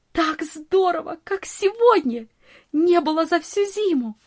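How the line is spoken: Delighted exclamation. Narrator (Russian): восхищенно воскликнула Нони

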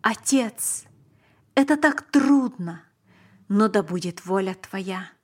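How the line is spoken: Exclaiming. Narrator (Russian): Он воскликнул

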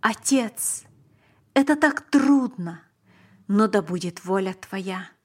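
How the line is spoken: Exclamation. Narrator (Russian): Он воскликнул

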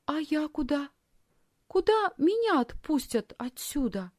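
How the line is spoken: Timid question. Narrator (Russian): робко спросила Лисхин

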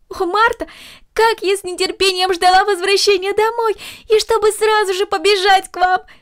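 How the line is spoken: Exclaiming eagerly. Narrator (Russian): воскликнула Корнели

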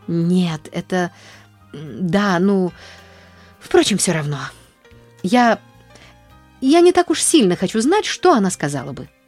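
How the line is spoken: Stammering. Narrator (Russian): запинаясь, вымолвила Нэнси

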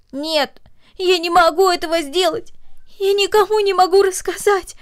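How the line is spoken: Sobbing girl. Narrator (Russian): произнесла девочка между всхлипываниями

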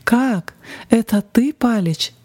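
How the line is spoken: Exclaimed. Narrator (Russian): воскликнул он

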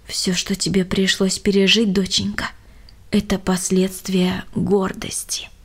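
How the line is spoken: Plain. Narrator (Russian): сказала мама

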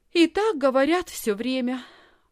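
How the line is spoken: Sigh. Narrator (Russian): вздохнула Лисхин

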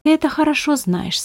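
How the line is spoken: Calm. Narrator (Russian): спокойно ответил Беппа

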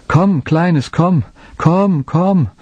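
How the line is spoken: Long calling. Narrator (German): er rief lange

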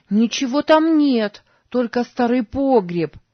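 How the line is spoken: Shout after someone. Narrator (Russian): крикнула ему вслед Сара

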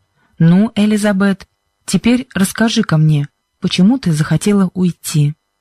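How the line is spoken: Kind voice. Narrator (Russian): Проговорил мистер Джонсон добрым голосом

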